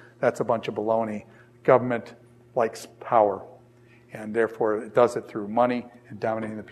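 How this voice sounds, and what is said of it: Usual voice. Nothing is said of it.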